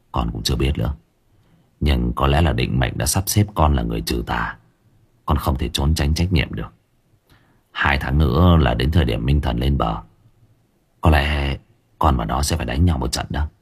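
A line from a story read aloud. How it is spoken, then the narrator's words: Sighing. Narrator (Vietnamese): Lâm thở dài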